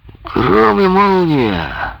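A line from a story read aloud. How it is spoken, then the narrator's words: Reveler's exclamation. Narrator (Russian): воскликнул один из бражников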